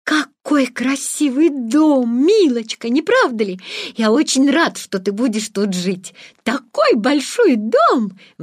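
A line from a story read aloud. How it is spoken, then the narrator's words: Exclaiming. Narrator (Russian): воскликнул он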